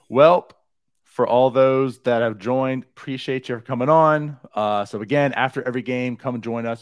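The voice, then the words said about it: Hoarse, strained voice. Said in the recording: “I like lost my voice a little bit last night, and it's kind of carrying over today... I just have a terrible voice. This isn't my normal speaking voice.”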